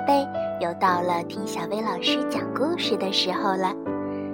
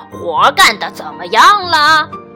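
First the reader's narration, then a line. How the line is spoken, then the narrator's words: Farmer clamoring. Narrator (Chinese): 农夫嚷嚷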